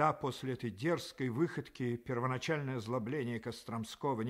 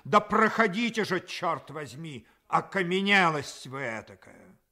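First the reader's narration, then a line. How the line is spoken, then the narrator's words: Irritated shout. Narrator (Russian): он еще более раздраженный ... крикнул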